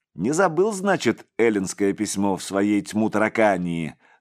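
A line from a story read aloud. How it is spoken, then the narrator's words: Laughing priest. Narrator (Russian): засмеялся отец Серафим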